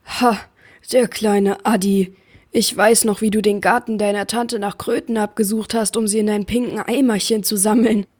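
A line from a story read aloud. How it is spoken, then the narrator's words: Giant thundering. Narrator (German): donnerte der Riese und grinste von einem Ohr zum anderen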